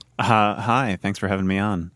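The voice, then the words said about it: NPR radio announcer voice. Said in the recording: “did the NPR voice”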